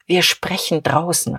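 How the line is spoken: Low murmur. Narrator (German): raunte er ihm zu

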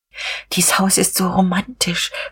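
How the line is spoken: Whisper. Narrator (German): flüsterte Frau von Vulko

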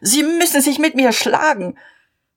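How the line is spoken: Shouted. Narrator (German): schrie er

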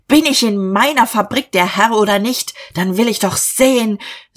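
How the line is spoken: Shout. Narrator (German): Er schrie

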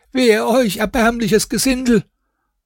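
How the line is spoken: Water carrier shouting. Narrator (German): Dem Wasserträger, welcher dann schrie

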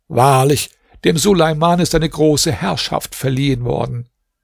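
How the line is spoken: Caliph's exclamation. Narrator (German): der Kalif versiegelte sie und ließ sie in seine Schatzkammer bringen und rief

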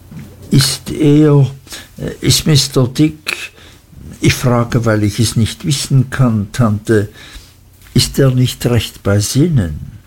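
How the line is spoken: Nervous stammer. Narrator (German): stotterte ich, denn ich fühlte, dass ich mich auf einem gefährlichen Gebiet bewegte

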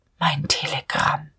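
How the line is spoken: Barely audible inner murmur. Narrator (German): Innerlich in so tiefer Seele, dass er es selbst kaum hörte, murmelte Dieterich

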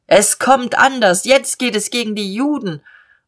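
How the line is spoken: Shouting at someone. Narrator (German): Ein verzerrtes Gesicht schreit ihm zu

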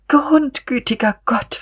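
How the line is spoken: Whimpering. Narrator (German): wimmerte sie

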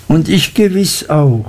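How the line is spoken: Blushing, laughing agreement. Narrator (German): stimmte rötend und lachend ein

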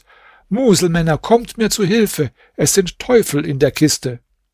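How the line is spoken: Shouting out window. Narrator (German): Chalif … rief zum Fenster hinaus

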